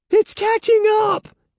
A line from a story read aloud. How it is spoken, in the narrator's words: Andy screamed